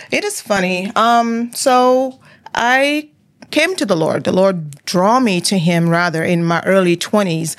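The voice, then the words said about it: Cameroonian accent with French mixture. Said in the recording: “That's where the accent is from... I still have that mixture. My father is French, so you also have that little mixture in there, in the accent.”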